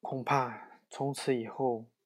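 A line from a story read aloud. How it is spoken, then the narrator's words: Sighing, to himself. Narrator (Chinese): 他叹着气，自言自语道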